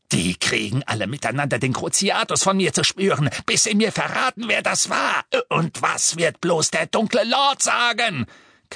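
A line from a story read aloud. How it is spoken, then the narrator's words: Shrieking in distress. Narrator (German): kreischte er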